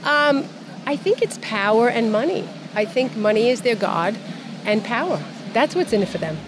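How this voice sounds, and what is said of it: Brooklyn accent. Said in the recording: “With the Brooklyn accent”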